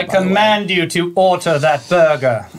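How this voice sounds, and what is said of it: Put-on regal English accent. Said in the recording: “Madam Queen of England ... What was that accent?”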